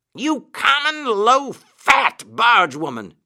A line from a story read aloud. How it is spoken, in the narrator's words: he shouted